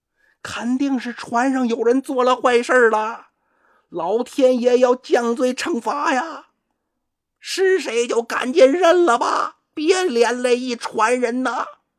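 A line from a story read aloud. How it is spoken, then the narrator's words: Shouting. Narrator (Chinese): 这时候就有人喊了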